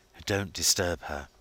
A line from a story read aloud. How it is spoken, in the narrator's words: he whispered